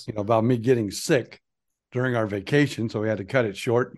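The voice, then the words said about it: Hoarse voice. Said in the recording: “my voice was even hoarser than it is now”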